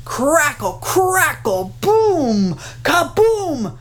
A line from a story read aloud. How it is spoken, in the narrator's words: the thunder bellowed